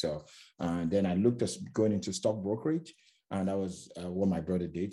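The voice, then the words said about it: Slight foreign accent. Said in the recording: “I have a bit of an accent.”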